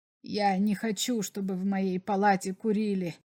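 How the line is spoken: Quiet but insistent. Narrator (Russian): сказал Берлах тихо, но настойчиво

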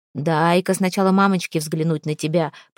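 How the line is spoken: Muttered. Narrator (Russian): пробурчал он

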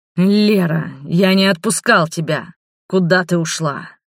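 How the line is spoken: Angry growl behind door. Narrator (Russian): прорычал полный гнева голос Роберта из-за двери

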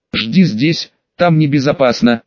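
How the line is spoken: Grumbled. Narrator (Russian): буркнул Юджин

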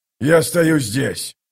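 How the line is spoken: Commander's growl. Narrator (Russian): прорычал командир

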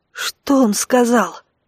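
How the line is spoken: Whispered question. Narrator (Russian): шепотом спросил Дар

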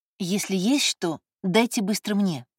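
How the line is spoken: Whisper. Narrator (Russian): шепнула Элеонора

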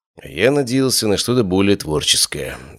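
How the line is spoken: Sighing. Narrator (Russian): вздохнул я

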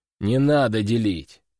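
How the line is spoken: Deep bass voice. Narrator (Russian): пробасил серый

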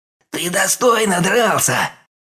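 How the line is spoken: Snarling hiss. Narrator (Russian): прошипел он, оскалившись

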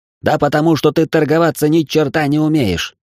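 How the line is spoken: Deafening yell. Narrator (Russian): заорал он так, что у меня заныли барабанные перепонки

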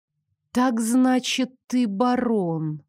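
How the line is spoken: Drawled. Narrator (Russian): протянула я

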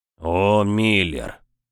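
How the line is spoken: Heavy exasperated sigh. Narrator (Russian): Рид тяжело вздохнул

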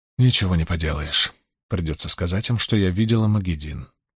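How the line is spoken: Mutter. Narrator (Russian): пробормотала Найниф

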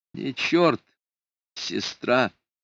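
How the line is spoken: Plain. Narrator (Russian): ответил ей Флорабелла

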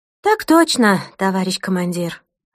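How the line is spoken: Crisp, dutiful reply. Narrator (Russian): отсалютовала в трубку Ирина

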